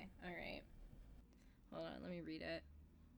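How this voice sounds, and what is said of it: Usual voice. Nothing is said of it.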